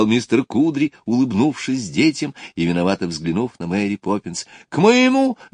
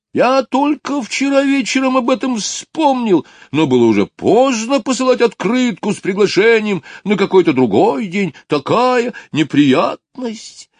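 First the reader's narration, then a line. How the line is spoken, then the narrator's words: Exclaimed. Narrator (Russian): воскликнул толстяк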